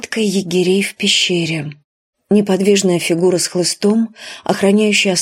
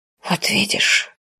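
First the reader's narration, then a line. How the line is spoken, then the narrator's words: Whispered. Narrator (Russian): сказал Тритан шепотом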